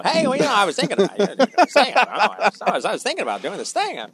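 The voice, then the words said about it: Imitates a talk-show host's voice. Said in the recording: “Kind of like a Jay Leno.”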